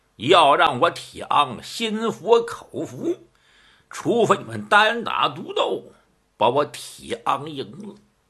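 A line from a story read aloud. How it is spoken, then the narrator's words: Cold sneering laugh. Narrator (Chinese): 铁昂一阵的冷笑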